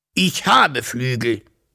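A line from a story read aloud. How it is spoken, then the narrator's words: Proud dragon hissing. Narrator (German): fauchte der Drache stolz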